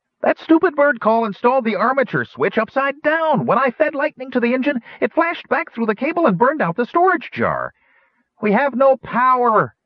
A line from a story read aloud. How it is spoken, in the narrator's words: Flash exclaimed, close to tears